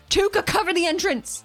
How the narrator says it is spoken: From the roof, Athena shouts

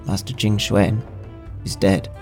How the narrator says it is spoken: The steward repeated in a trembling voice

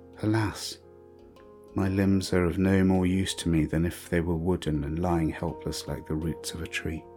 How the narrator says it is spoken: her whisper in the dark

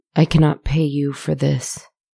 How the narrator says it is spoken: muttered

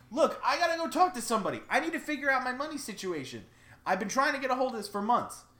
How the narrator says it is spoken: Bob yells back

